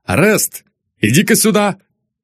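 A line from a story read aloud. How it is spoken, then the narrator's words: Shouted. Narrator (Russian): Бородин крикнул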